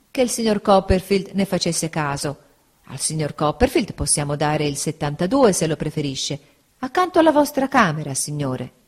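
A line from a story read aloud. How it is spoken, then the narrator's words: Apologetic waiter. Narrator (Italian): rispose il cameriere sempre in tono di scusa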